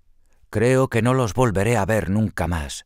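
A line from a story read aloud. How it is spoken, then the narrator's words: Sad sigh. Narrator (Spanish): suspiró con tristeza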